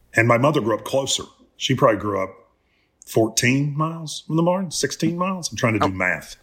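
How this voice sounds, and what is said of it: Slow thick drawl. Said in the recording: “your molasses drawl”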